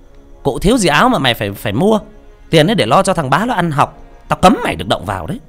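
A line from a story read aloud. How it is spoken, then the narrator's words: Shrill shout from outside. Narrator (Vietnamese): Mụ Diễm từ bên ngoài quát the thé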